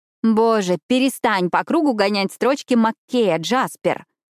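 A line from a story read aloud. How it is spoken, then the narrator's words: Loud, interrupting. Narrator (Russian): громко пресекла монолог Эшли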